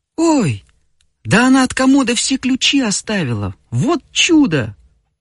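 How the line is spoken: Exclamation. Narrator (Russian): воскликнула Феня

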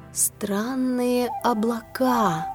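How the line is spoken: Thoughtful drawl. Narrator (Russian): задумчиво протянула она

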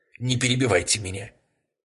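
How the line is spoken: Commanding woman's voice. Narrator (Russian): повелительным голосом произнесла женщина

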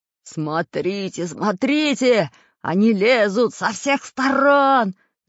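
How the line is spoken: Frightened shouting pirate. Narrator (Russian): закричал перепуганный пират Бульбуль

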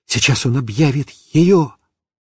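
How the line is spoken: Whispered. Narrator (Russian): я шептал папе

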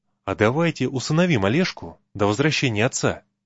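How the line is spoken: Quiet young voice. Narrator (Russian): молодой необученный суббота тихо сказал товарищам

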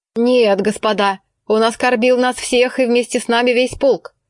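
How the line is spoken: Thick resolute bass. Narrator (Russian): сказал своим густым решительным басом майор Кожин

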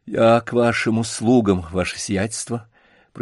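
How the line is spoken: Muffled, hollow voice. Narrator (Russian): произнес он глухо

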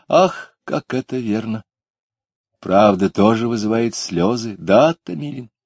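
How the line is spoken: Sad. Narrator (Russian): Таня Куликова печально сказала

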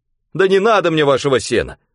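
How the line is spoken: Near-tearful shout. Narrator (Russian): Чуть не со слезами крикнул Солодовников

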